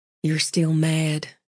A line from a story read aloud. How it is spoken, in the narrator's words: she murmured